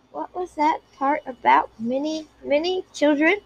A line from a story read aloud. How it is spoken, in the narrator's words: Minette asked sleepily, with pure joy in her voice